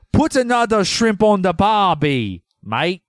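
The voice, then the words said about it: Attempted Australian accent. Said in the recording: “Your Australian accent ... I'm going to try it ... That might be like the northeastern part of Australia, maybe. Might be their dialect up there. I give you a pass on that.”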